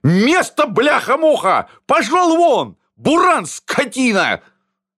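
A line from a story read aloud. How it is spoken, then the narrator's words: Loud yelling. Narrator (Russian): Чем громче он орал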